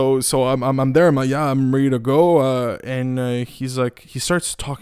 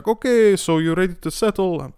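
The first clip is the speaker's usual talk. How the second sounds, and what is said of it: Unidentified put-on accent. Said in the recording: “I don't know what kind of accent I'm doing. I apologize, man.”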